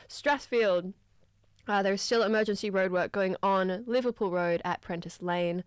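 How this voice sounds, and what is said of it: Strained, fading hoarse voice. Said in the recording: “I'm just losing my voice from singing all those great songs.”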